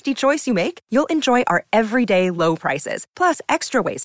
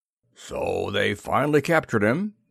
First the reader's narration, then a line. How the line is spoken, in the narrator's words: he rumbled